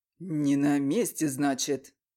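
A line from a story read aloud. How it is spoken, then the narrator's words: Hoarse bark. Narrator (Russian): хрипло рявкнул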